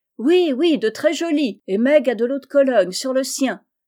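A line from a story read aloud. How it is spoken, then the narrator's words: Shouted. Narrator (French): cria Joe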